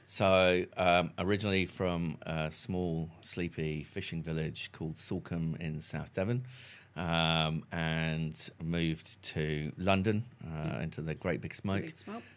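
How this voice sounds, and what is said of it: English accent, not New Zealand. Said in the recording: “you have an accent that doesn't sound like a Kiwi”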